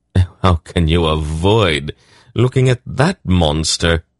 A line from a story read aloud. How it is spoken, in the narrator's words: Silk scoffed